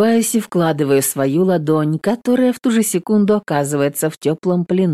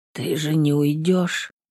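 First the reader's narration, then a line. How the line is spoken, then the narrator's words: Barely audible mutter. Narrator (Russian): Едва слышно бормочет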